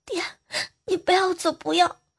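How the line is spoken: Anxious loud weeping. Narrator (Chinese): 我就特别特别的着急啊，大哭

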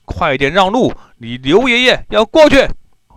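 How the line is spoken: Shouting. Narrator (Chinese): 大叫一声

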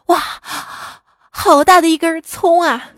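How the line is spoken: Gasping in amazement. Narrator (Chinese): 许仙倒吸一口凉气，惊叹道

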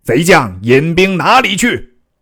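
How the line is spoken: General shouting. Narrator (Chinese): 为首大将大叫曰

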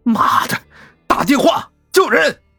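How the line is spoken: Angry roar. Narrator (Chinese): 江玉一拳砸在方向盘上，吼道

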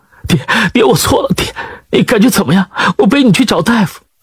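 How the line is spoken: Sobbing. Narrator (Chinese): 他哭泣着……抽泣道

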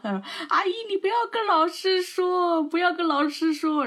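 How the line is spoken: Crying. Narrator (Chinese): 我那个同桌他也哭，边哭，然后边跟我妈说

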